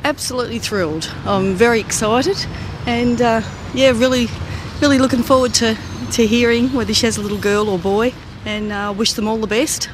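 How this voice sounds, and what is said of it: Australian accent. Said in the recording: “that accent, where are you from? ... I'm from Australia.”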